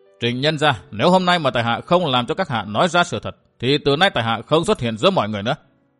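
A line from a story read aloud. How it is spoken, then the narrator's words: Hard, cold. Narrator (Vietnamese): Sắc mặt đanh lại, vẻ lạnh lùng hiện lên trên đôi mắt, Địch Tuân nói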